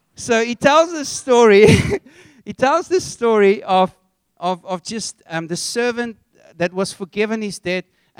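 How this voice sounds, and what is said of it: Afrikaans accent. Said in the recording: “I'm Afrikaans, if you haven't picked it up from my accent.”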